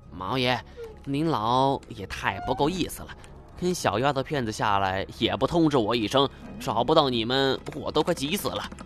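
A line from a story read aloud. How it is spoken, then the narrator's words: Quiet complaint. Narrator (Chinese): 金锁 小声抱怨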